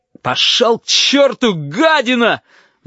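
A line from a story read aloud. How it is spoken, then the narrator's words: Roaring. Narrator (Russian): взревел Корнелий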